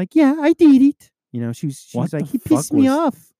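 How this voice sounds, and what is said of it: Attempted Spanish accent sounding Russian. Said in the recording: “What impression is that? ... That's my Spanish lady accent. ... Russian? ... Why do all of your impressions sound Russian?”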